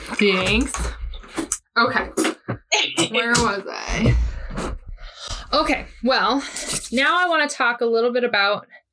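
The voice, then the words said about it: Out of breath, panting. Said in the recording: “I'm out of breath ... I could hear myself going... ... I like ran up the stairs”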